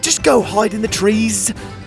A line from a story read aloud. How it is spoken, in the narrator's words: Pockets shouted back at them